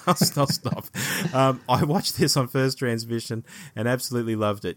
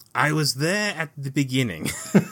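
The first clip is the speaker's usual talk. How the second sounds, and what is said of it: Imitated voice drifting into Borat-like accent. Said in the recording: “in a Peter Jurassic voice... I've turned into Borat already.”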